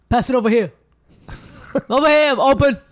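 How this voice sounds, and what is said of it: Basketball player character voice. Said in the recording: “your basketball player impression. ... black voices”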